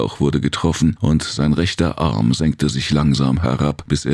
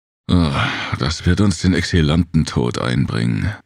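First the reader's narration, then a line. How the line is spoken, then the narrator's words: Growling. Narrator (German): knurrte Jem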